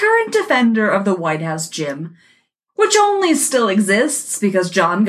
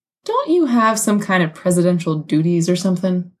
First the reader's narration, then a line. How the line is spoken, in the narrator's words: George asks